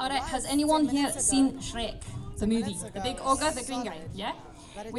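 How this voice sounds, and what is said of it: Usual voice. Nothing is said of it.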